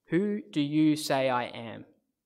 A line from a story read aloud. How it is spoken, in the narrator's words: Jesus asked Peter